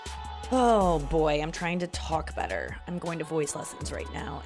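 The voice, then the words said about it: Vocal fry, throaty voice. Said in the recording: “this voice is not working for me. It's from the back of my throat ... Vocal fry.”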